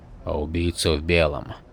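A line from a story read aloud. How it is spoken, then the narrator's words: Quiet question. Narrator (Russian): негромко спросил Шрам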